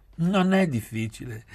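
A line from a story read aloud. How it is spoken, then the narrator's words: Laughing. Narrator (Italian): rise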